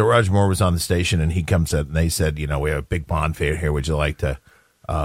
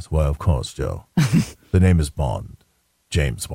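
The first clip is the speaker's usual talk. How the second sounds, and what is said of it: English accent, imitates another person's voice. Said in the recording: “it is great English accent”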